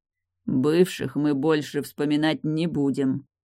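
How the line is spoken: Grumbling into her neck. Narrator (Russian): пробурчал ей в шею

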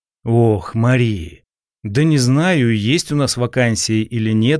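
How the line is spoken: Sighing. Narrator (Russian): вздохнул я

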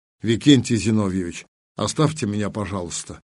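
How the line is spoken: Quiet request. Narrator (Russian): тихо попросил

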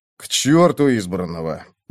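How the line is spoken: Gruff mutter. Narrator (Russian): буркнул комендант

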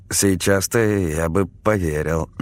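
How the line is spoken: Hesitant reply. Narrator (Russian): неуверенно ответил я

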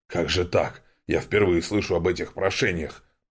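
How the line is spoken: Old man muttering. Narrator (Russian): пробормотал себе под нос старик

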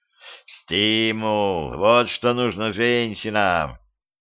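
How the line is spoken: Muttered. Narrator (Russian): бормотал Петрович

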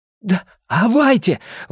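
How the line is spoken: Exclaimed. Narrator (Russian): воскликнул Билл

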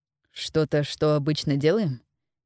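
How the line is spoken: Even-toned question. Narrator (Russian): переспросил Дитер ровным тоном

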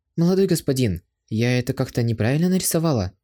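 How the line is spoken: Soft question. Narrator (Russian): Она мягко спросила

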